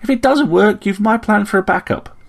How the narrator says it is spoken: exclaimed Ritterpik

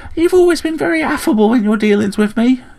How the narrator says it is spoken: chirped Returbick

